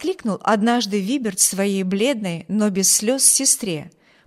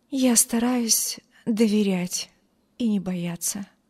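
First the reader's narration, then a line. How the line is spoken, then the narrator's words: Weak voice, young woman. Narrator (Russian): слабым голосом ответила бедная девушка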